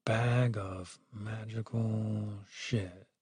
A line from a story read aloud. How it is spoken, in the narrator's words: muttered to himself